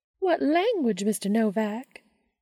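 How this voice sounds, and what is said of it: High-pitched put-on Southern accent. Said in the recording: “affecting a high-pitched southern accent.”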